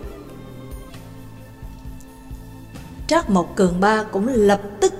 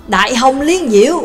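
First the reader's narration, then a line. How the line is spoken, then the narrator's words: Exclaiming in unison. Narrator (Vietnamese): Nhạc Dương và Trương Lập đồng thanh kêu lên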